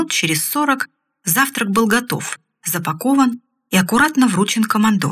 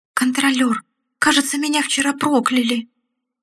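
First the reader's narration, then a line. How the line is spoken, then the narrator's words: Trembling voice. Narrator (Russian): произнес лепрекон дрожащим голосом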